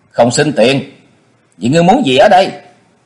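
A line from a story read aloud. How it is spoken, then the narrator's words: Taoist smiling. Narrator (Vietnamese): Đạo nhân mỉm cười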